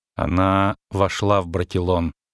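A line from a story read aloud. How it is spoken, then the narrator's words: Quiet. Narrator (Russian): проговорила тихо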